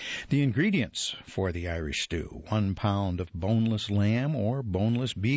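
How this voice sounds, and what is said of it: Usual voice. Nothing is said of it.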